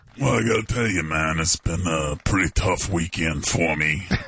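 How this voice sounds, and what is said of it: Character voice with New York accent. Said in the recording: “he has a New York accent.”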